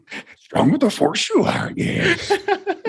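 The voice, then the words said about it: Yoda impression. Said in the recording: “your Yoda impression”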